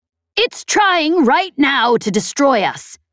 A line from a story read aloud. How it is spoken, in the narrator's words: Chet yelled